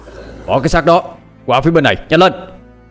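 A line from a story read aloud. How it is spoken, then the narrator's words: Hurried shout. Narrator (Vietnamese): Hồng Quán vội hét lên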